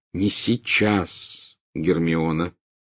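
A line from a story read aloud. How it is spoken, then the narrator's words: Gloomy, meaningful tone. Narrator (Russian): мрачным и многозначительным тоном произнес Гарри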